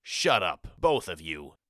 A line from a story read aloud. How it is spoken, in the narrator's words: growled Present, losing his temper